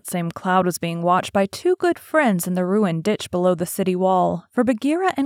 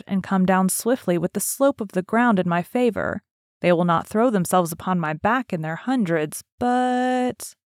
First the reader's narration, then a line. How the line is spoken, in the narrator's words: Call whispered